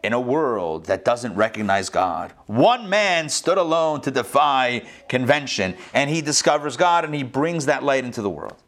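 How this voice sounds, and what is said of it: Movie trailer narrator voice. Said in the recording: “I'll cue up my movie trailer voice.”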